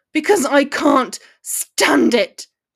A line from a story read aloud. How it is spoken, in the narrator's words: he screamed, every muscle in his body seizing up